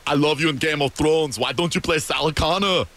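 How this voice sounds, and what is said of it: Imitates another person's accent. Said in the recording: “That was an amazing accent.”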